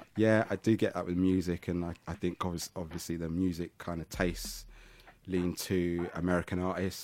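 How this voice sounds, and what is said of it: Southeast London accent. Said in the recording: “I want people to hear I'm from Southeast London. I want them to know I'm from Catford ... I definitely hear my accent”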